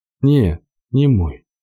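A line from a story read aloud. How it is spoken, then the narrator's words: Slow speech. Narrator (Russian): медленно проговорила та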